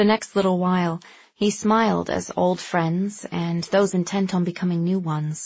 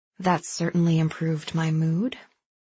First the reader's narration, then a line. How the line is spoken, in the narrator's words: Fallen breathed